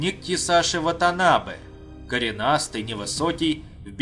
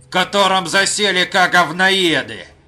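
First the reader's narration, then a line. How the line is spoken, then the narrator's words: Roaring. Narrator (Russian): проревел Абер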